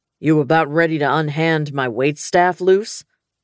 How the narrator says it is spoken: Knox growled behind me

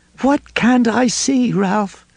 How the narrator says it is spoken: Lois moaned

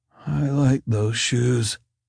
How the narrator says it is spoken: Jack mumbled

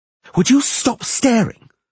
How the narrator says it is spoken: the sorceress screamed at Geralt

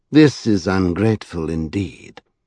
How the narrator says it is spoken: declared the gentleman coldly

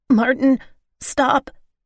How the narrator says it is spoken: I gasped

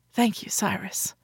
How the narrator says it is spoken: I whispered

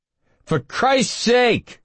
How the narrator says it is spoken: Jack shouted

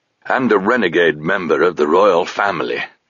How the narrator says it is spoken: added Touchstone, his voice still harsh and dry from the cold winds of their flight, unquenched by tea

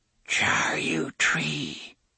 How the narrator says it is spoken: Cordelia whispered

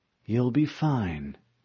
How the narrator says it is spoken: Cortana replied soothingly

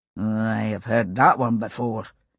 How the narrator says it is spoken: Jamie muttered

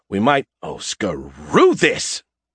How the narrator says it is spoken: Skippy spat

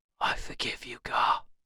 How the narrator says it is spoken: he whispered

